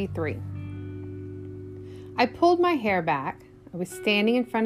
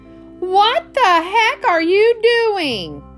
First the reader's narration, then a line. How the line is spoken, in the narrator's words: cried